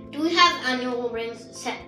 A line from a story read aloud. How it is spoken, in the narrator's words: asked Papa